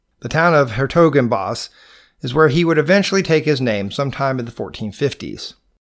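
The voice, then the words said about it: Southern US Georgia accent. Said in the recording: “my Georgia accent”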